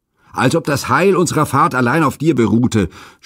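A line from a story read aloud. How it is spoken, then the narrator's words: Rough man shouting. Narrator (German): schrie mir ein roher Geselle zu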